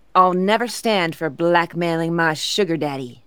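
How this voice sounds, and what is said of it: Put-on Southern American accent. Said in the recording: “I kind of gave her a southern accent there”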